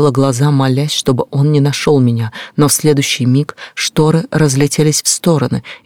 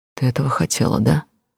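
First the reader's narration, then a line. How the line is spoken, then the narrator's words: Hoarse whisper. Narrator (Russian): хрипло прошептал он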